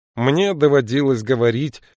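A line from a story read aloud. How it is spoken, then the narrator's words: Grumbling. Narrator (Russian): проворчал Бинабик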